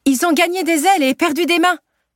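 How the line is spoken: Shouted reply. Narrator (French): répond Ophélie en criant à son tour

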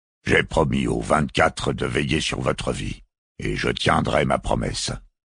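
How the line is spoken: Grumbling. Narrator (French): grommela Malthus Akhtar

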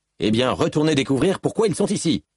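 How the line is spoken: Shouted. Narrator (French): hurla l'officier

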